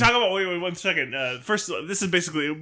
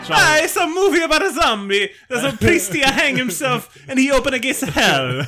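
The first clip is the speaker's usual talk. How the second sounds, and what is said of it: Exaggerated Italian accent, Mario-like. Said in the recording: “low-effort Italian stuff ... The Italian accent I'm doing is basically Mario.”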